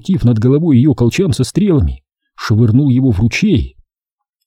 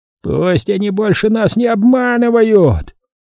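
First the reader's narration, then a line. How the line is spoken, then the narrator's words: Roared. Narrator (Russian): взревел ходец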